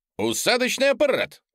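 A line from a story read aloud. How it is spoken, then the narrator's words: Exclamation. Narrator (Russian): воскликнул Бун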